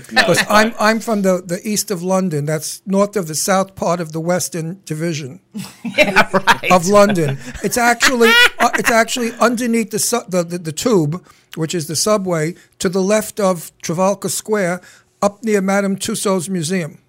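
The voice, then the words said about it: Thick English accent. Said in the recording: “I hope my English accent's not too thick ... Now you know my accent.”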